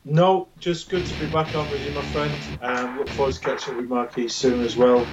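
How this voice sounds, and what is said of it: Distinctive non-American accent. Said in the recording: “I love the accent. It's just different. I love hearing the accent”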